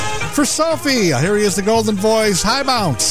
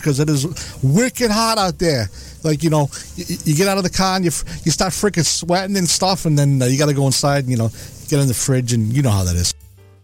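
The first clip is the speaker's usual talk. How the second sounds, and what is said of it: Deliberately bad put-on Boston accent. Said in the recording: “my worst Boston accent ever”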